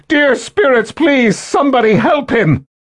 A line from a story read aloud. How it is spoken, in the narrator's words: Kaelin cried to those around her